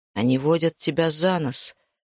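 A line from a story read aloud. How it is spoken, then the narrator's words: Quiet speech. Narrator (Russian): тихо сказал он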